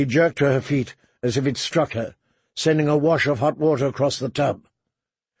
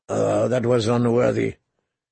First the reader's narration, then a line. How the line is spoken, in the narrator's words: he mumbled